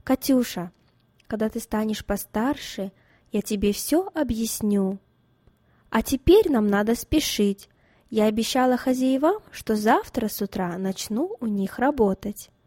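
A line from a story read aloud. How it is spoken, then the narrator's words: Calm, suppressing pain. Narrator (Russian): переборов в себе душевную боль и обиду за свою невинную дочь, спокойно сказала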